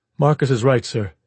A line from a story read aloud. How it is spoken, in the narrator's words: he said flatly